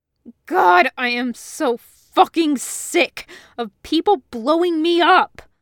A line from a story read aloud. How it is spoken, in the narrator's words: he screamed